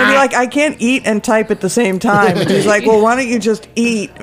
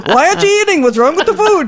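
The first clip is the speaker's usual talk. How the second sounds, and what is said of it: Put-on Jewish accent. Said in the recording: “that's a Jewish accent, I can't do an Italian”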